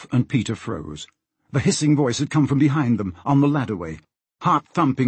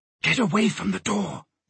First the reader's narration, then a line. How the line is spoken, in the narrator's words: she whispered